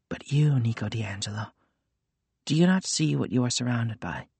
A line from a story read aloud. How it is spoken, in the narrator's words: The whispers rose again, and this time Nico sensed a desperation in them